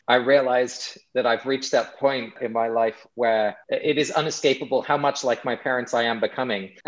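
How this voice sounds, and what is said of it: English accent. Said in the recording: “I'm English originally, if you hadn't heard in my accent.”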